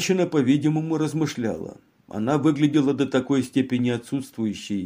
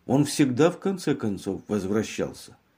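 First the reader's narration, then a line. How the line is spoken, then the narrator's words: Monotone, dull voice. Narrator (Russian): ответила своим монотонным, тусклым голосом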